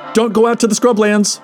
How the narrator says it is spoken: Al added with a shout

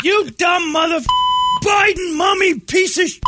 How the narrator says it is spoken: scream

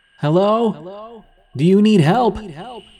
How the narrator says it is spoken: I yelled out

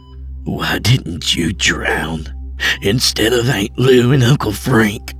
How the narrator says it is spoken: she growled

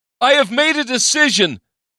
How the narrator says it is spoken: he shouted

